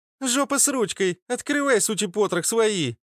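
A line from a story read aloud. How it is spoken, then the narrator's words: Cheerful shout. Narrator (Russian): весело прокричала куда-то в стену рыжая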